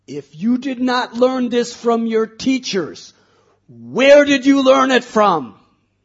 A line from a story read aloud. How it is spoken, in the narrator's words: Hiranyakashipu screamed at Prahlad